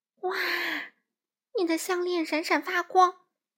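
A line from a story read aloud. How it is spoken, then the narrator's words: Amazed exclamation. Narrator (Chinese): 惊叹道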